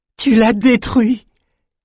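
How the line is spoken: Exclaimed. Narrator (French): s'écria Elsa

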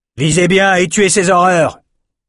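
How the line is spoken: Shouted. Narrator (French): cria Stuart

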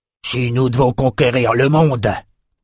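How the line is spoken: Grumbling. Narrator (French): grogna Calvert

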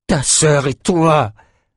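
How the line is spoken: Roared. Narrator (French): rugit Ren

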